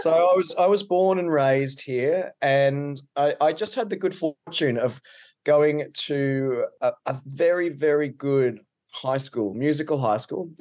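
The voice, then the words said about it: Australian accent. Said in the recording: “If you can't tell by the accent, I'm Australian.”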